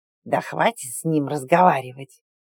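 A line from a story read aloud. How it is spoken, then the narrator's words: Bloodthirsty hiss. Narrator (Russian): кровожадно зашипела пра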